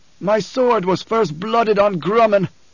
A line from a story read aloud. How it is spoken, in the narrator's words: bellowed